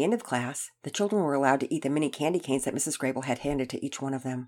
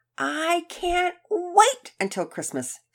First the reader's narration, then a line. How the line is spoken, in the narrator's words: Sophia exclaimed loudly